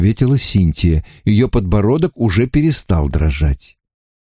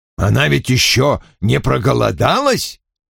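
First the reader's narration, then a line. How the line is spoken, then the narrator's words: Irritated. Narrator (Russian): раздраженно предположил Вульф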